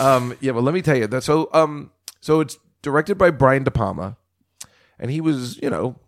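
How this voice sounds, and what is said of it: Usual voice. Nothing is said of it.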